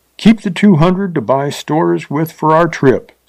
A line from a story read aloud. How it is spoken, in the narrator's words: said Pond